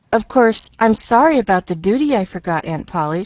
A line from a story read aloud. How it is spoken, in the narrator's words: she apologized timidly